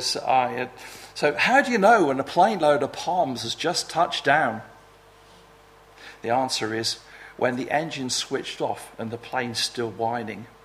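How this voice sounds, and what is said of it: Weak attempt at New Zealand accent. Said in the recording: “I can't really do a proper New Zealand accent, not very good at it.”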